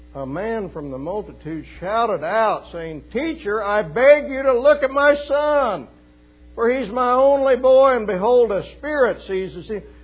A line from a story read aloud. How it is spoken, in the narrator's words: He shouts out in front of everybody